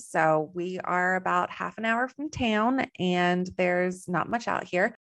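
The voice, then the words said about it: Slight Texan American accent. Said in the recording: “I have a little bit of an accent. So I'm originally from Texas.”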